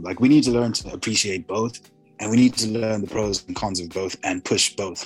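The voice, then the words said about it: American-sounding accent. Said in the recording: “you sound American, bro. ... that's just my accent. I'm not putting it on. ... I sound American”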